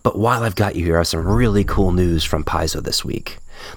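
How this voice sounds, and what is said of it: Whispering. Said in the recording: “Sorry for the whispering... I'm trying to be quiet”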